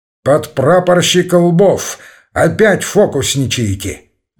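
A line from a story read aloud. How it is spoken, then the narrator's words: Mock-stern call. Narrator (Russian): притворно строго окликнул его Слива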